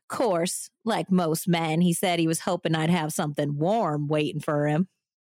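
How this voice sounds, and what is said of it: Put-on Southern accent. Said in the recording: “how can you not read that with a Southern accent?”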